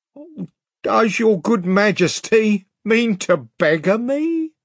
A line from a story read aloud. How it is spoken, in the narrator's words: whined Pug